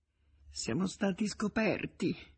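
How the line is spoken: Stammering. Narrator (Italian): farfugliò Nemecek

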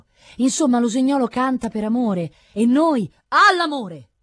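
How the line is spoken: Abrupt, startling shout. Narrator (Italian): gridò con un soprassalto di voce così brusco

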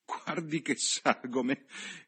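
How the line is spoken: Laughing. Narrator (Italian): rise la signorina Levish

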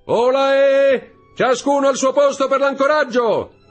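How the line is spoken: Young man shouting. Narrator (Italian): il giovane gridò

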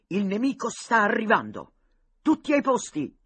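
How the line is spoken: Thundering. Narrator (Italian): tuonò Boca

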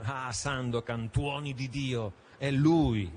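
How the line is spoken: Exclaimed. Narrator (Italian): esclamò Yanez

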